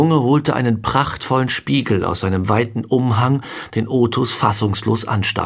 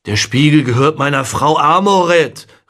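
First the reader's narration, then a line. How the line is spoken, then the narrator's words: Called out. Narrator (German): rief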